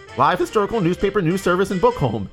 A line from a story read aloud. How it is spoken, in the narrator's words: he said eagerly